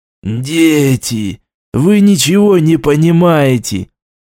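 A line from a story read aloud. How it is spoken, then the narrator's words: Exhaled. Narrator (Russian): выдохнул Юсупов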